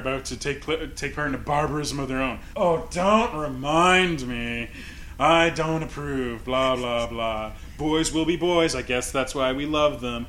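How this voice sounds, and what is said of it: Campy drag-queen style impression of Deanna. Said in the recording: “When did they turn into two drag queens? ... pretty good impression ... my impression was pretty spot on”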